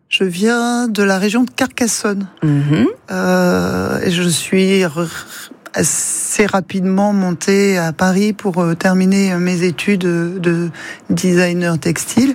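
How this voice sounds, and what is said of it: Slight regional French accent. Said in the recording (French): “J'ai entendu un petit accent.”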